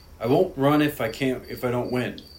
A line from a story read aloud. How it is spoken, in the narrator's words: says